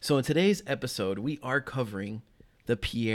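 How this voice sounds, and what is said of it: Usual voice. Nothing is said of it.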